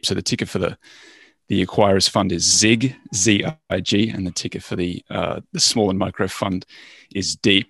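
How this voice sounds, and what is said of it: Australian accent. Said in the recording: “in Australia, that's the accent”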